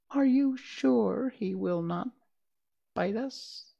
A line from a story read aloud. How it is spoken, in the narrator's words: the queen of the mice ... asked in a timid voice